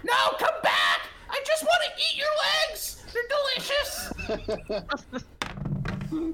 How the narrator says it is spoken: Dax is still chasing them, shouting like

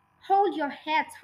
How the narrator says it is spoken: Hortensia whispered

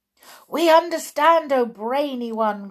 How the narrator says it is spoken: cried the audience

